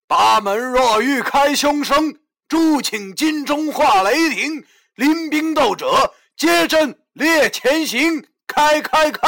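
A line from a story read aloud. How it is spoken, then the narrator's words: Loud commanding incantation. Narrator (Chinese): 老易高声的喝道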